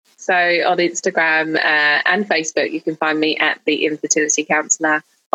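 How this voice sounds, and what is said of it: British accent. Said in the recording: “I love your British accent. It makes me miss the UK.”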